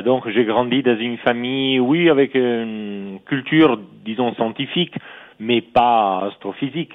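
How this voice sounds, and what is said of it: Italian accent speaking French. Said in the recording (French): “je suis italien, comme mon nom l'indique, et mon accent aussi, malheureusement encore”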